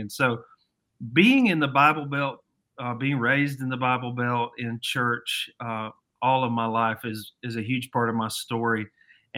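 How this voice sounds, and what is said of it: Mild Southern American accent. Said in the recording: “I'm originally from Alabama, and I still got some of that Southern accent.”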